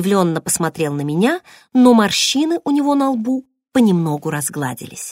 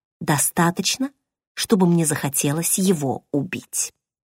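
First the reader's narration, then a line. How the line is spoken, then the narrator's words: Whispered. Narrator (Russian): прошептала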